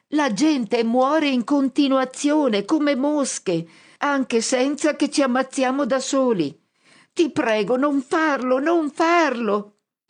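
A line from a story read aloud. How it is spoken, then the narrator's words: Shouting at top of lungs. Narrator (Italian): grido a squarciagola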